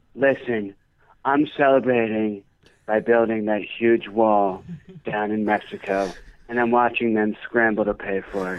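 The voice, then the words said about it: Donald Trump impression. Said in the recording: “Donald Trump listens to our show ... Mr. Trump?”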